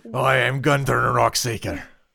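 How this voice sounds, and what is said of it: Fantasy dwarf voice, Scottish-style accent. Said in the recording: “my dwarf accent and I call it Scottish”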